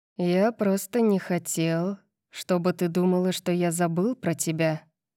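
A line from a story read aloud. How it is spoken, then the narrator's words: Purring. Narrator (Russian): промурлыкал он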